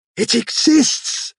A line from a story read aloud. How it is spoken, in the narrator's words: cried